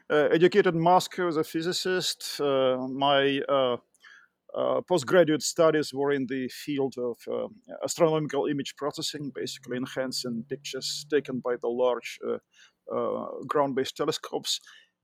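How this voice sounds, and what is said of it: Russian accent. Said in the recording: “I'm originally from Russia. You can tell by my accent”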